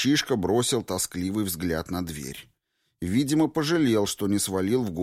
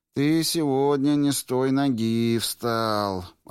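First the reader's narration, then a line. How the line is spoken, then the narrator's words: Upset drawling armorer. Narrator (Russian): расстроенно протянул оружейник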